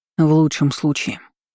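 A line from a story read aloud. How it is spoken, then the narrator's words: Sighing. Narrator (Russian): вздохнул Эрик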